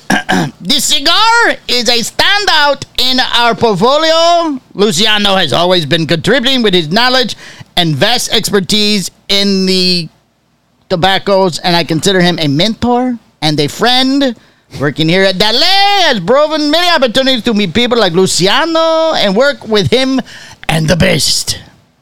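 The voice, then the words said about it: Mock German accent drifting into Spanish. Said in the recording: “What accent was that? ... it turned into Spanish there at the end. ... You were trying to go German, right? ... Started German at the beginning, yeah. Sort of transitioned into Latin, and then maybe even finished in Chinese”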